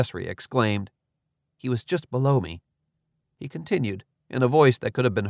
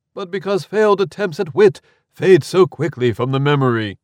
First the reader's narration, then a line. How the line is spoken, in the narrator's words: called out Fra Lodagear